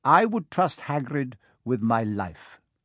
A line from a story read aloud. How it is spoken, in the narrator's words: said Dumbledore